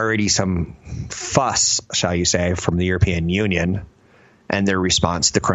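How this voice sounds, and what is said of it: Usual voice. Nothing is said of it.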